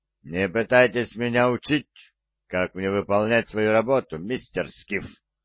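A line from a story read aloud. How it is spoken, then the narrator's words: Growled. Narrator (Russian): прорычал он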